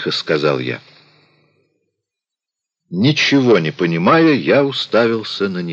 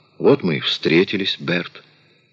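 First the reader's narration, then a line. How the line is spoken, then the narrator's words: Pleasant low voice. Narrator (Russian): она приятным низким голосом произнесла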